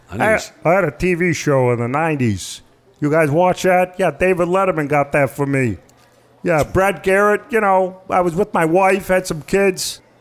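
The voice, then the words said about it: Good Ray Romano impression. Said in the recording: “I do one impression. ... It's Ray Romano. ... You do a really good Ray Romano. ... that's a very good Ray Romano.”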